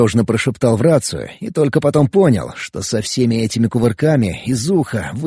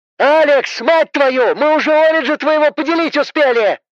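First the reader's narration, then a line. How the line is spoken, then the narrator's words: Roaring. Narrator (Russian): Взревела Эбби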